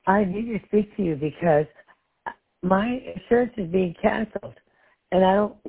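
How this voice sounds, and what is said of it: Hoarse, croaky voice. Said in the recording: “I have a bit of a frog in my throat.”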